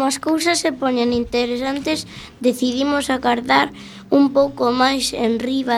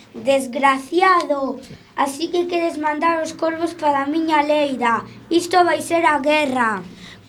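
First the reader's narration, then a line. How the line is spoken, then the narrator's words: Exclaiming. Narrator (Galician): apareceu o puma, e ao ver o espantallo do couceiro exclamou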